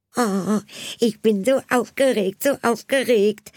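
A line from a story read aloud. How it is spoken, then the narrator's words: Loud singing. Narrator (German): sang Anna mit lauter Stimme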